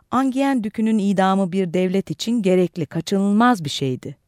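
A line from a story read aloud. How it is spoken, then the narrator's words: Plain. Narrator (Turkish): dedi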